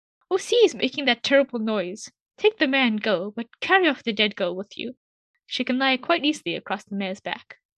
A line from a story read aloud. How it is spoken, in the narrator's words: cried